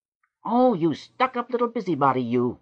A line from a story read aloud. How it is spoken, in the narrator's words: shrieked Bess Emheb, his gnome face crumpled into a thousand wrinkles with sheer rage